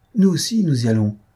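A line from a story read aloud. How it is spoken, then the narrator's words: Young noblewoman exclaiming. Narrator (French): s'écria la petite marquise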